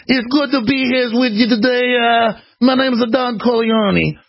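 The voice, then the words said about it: Hillary Clinton doing mock New York accent. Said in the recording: “Hillary normally goes around and talks in whatever accent. If she's in New York”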